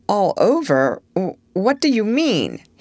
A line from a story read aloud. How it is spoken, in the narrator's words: he asked in an indistinct stammer